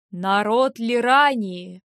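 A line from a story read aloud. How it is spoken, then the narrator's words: Booming magically amplified voice. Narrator (Russian): Воззвал он зычным голосом, усиленным магией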